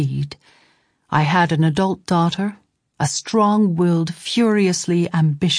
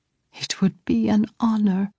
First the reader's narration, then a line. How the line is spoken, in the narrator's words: whispered